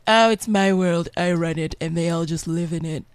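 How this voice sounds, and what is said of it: Imitates another person's voice. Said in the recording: “your accent is pretty spot on these days”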